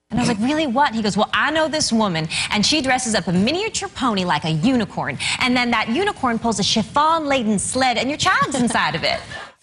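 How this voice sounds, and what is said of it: Put-on Southern accent. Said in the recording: “Forget the Southern accent. She's just mimicking there.”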